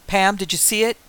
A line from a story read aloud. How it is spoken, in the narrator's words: yelled over the sound of the engine